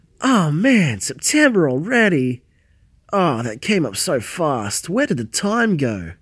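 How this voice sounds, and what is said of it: Australian accent. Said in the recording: “sorry about my voice. I'm Australian. ... He's got his really accent.”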